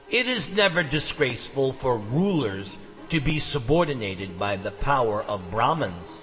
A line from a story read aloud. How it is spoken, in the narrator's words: the king replied